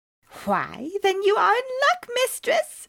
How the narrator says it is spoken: cried the fairy

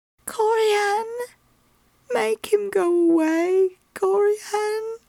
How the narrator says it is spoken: she said hoarsely

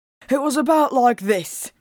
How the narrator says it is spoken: he panted

